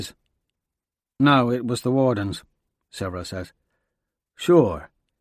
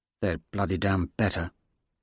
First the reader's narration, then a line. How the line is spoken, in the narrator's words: Severo mutters